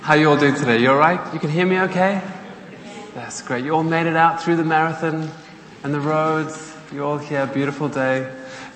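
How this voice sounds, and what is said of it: South African accent. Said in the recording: “he's from South Africa originally. You'll tell that from his accent.”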